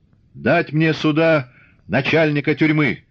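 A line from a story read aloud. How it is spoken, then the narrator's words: Shout. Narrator (Russian): закричал он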